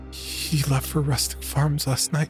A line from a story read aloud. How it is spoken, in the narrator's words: Her voice trembled as she quietly muttered